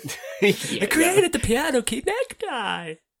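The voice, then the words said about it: Good impression of Mugatu. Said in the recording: “Mugatu in Zoolander ... That's quite a good impression”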